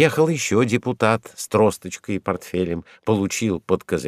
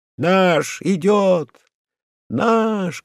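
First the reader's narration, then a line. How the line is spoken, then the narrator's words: Group shouting. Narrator (Russian): крикнула кучка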